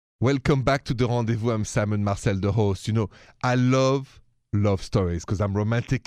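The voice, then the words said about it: French accent. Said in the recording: “I'm from Paris, if you haven't noticed the accent.”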